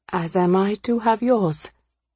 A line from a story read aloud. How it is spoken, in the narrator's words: Amisha breathed, grateful to him for giving their interactions a definition and boundaries